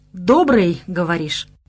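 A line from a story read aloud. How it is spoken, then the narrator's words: Uncooperative grumble. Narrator (Russian): проворчал я несговорчиво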